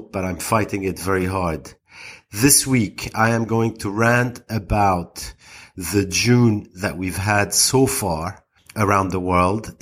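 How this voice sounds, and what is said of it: Slightly altered, congested voice. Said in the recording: “my voice is slightly different. I think I have a cold,”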